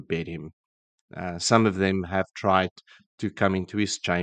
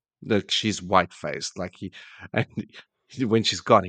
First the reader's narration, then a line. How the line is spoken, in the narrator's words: he laughs